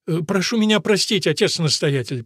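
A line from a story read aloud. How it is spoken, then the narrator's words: Timid babbling. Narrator (Russian): пролепетал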